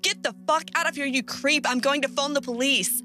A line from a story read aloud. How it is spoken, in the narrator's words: him shouting